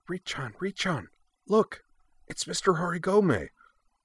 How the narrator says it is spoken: Yui whispered

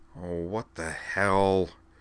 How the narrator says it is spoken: she growled

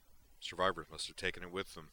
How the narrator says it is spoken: Sorenzu grunted

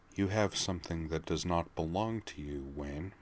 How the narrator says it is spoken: she said, her voice quiet but full of menace

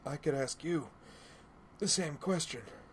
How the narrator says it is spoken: replied between pained gasps for breath, holding her wounded side

